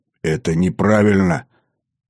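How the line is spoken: Strained, forced out. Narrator (Russian): С трудом выдавил я из себя

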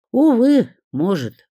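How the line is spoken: Sigh. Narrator (Russian): вздохнула я

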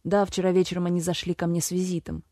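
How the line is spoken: Mocking reply. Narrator (Russian): насмешливо ответил Аксель

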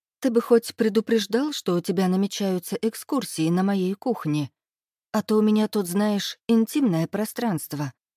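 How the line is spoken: Deceptively calm. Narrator (Russian): говорю обманчиво спокойно

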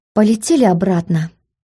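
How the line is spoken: Tired voice. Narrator (Russian): уставшим голосом обратилась к Смарагду

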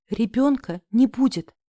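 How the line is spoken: Breathed out. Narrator (Russian): выдохнула я

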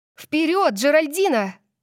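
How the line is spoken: Shouting. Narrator (Russian): закричала я

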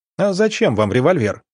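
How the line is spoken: Laughing. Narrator (Russian): рассмеялся

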